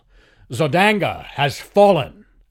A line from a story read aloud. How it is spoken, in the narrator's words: I cried